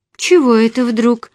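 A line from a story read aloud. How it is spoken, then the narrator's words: Exclamation. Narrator (Russian): воскликнула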